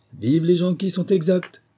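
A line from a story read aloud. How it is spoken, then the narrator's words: Exclaimed greeting. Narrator (French): s'écria en nous voyant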